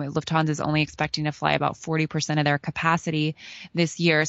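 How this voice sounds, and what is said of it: American accent. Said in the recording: “I listened to your accent, and you're American.”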